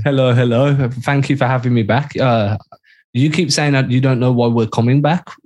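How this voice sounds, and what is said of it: Speaks with a noticeable accent. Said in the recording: “it's the accent. It's just the accent.”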